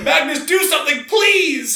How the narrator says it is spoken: Hendrik screamed in despair

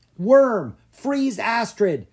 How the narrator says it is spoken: Drake yelled

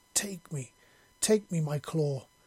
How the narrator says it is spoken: snarled

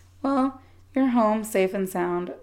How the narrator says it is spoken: my savior chuckled

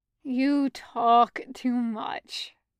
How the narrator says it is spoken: Julian groaned

